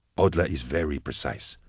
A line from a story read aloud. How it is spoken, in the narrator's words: replied Vorier quietly